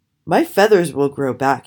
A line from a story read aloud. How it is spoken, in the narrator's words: he said